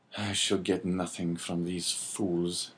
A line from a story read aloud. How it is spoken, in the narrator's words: he muttered